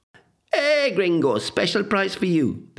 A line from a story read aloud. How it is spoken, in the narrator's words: would shout